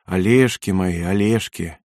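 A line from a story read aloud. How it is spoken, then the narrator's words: Affectionate speech. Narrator (Russian): она ласково говорила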